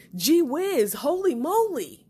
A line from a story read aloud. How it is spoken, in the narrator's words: exclaim